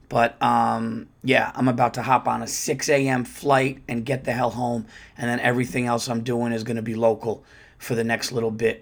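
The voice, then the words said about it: Slightly hoarse voice. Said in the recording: “As you could hear, my voice is a little hoarse, not too bad. Haven't been smoking the cigars too much”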